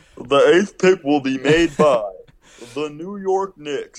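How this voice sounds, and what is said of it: Imitates another person's voice. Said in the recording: “That's a good impression. That sounded a lot like him... That sounded like weirdly like him... Yeah, that's pretty good.”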